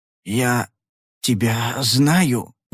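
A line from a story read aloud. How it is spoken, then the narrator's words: Forced out. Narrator (Russian): выдавил он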